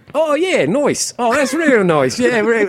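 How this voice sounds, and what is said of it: Put-on Australian/New Zealand hybrid accent. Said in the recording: “your Australian accent ... it's a hybrid. It's a person that lives in Australia, New Zealand, and America at the same time ... it's terrible, obviously”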